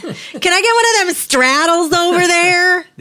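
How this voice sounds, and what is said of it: Funny put-on accent like Schultz. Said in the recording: “somebody speaking with a funny accent ... I'm thinking of Schultz on Hogan's Heroes ... with his accent”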